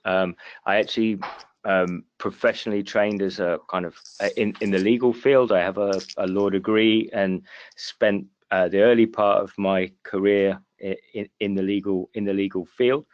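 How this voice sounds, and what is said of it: British accent. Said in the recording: “as you might get from my accent, I'm actually from the UK”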